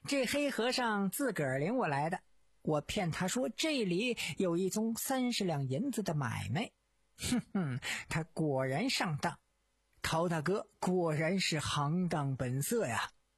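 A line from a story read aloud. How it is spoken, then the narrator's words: Laughing speech. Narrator (Chinese): 陶干笑道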